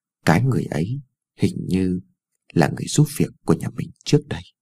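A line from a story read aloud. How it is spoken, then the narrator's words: Mumbled softly. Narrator (Vietnamese): Cô còn lí nhí nói thêm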